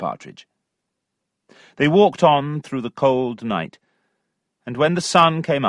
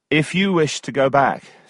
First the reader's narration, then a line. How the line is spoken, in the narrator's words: said Tom